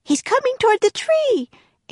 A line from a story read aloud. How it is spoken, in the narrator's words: Annie cried